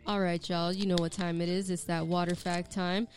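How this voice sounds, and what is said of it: Radio announcer voice. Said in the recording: “Let me get my radio voice on.”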